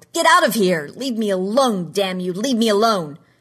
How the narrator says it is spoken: yelled

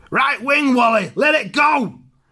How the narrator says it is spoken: Roy that shouts

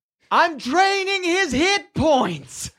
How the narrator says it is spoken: You hear her yell out

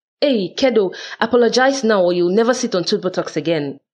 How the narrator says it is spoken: holler my well-meant threat

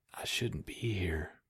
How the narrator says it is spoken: Wynn whispered

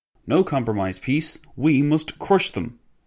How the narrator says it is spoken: exclaimed a former minister of public works

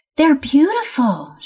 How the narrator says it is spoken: she exclaimed

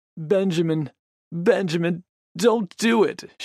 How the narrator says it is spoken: she sobbed

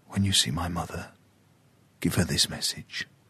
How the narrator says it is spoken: whispered

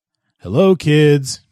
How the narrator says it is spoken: he said merrily

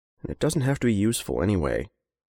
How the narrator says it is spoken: Henry muttered to the paper bag

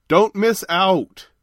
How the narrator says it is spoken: shouted Kent

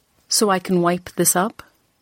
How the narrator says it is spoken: I had said coldly

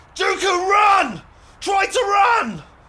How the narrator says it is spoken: Far away, Kali screamed

